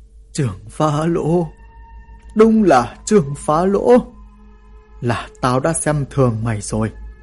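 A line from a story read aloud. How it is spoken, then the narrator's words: Trembling voice. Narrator (Vietnamese): Ả run rẩy cất tiếng nói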